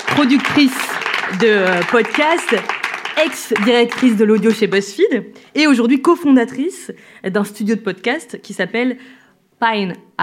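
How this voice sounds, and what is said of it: French spoken with English accent. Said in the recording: “avec mon bel accent euh, anglais”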